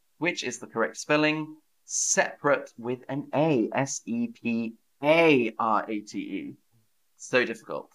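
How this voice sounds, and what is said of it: Southern English British accent. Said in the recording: “I have a British English accent. I'm from the south of England, so I have a British English accent.”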